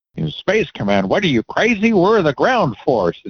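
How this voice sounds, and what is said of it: Gruff army commander voice. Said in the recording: “That's my best, Army Commander accent ... It was good.”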